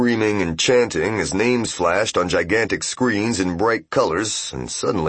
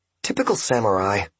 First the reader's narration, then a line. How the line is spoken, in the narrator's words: whispered Maiden to Seiki